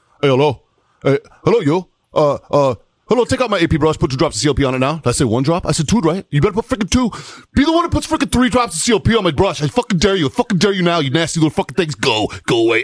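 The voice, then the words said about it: Imitates a Colombian drill sergeant's voice. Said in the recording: “dude from Colombia ... This is a spot on impersonation”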